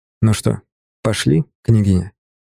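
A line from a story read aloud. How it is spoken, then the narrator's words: Plain. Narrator (Russian): Сказал я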